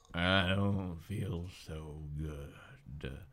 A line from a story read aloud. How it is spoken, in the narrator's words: he mumbled